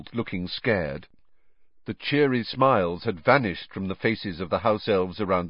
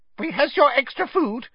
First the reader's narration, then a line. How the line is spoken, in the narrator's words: squeaked an elf